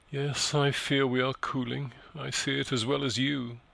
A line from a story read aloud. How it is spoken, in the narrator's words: sighed mournfully